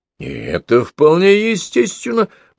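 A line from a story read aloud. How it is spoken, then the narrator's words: Cheerful exclamation. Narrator (Russian): бодро воскликнул Василий Петрович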